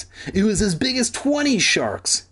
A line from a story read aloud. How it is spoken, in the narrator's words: Sheena exclaimed